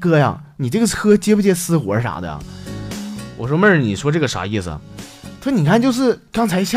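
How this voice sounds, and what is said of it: Usual voice. Nothing is said of it.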